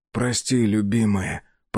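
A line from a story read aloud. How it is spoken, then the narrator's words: Hoarse rasp. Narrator (Russian): прохрипел он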